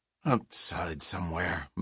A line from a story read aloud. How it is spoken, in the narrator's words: mumbled Odin, almost as though he didn't care